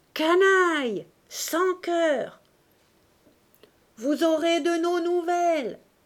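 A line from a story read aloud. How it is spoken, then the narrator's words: Yelling. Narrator (French): hurla Bush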